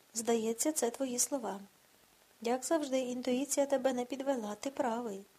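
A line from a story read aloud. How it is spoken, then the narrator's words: Sigh. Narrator (Ukrainian): зітхнув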